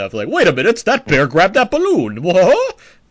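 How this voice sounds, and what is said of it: Imitates movie characters' voices. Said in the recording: “They sound exactly like that, too. I'm crushing that impression.”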